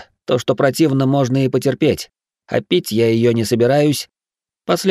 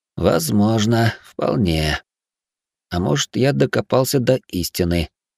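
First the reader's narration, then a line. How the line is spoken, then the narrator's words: Thoughtful mutter. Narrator (Russian): пробормотал я, соображая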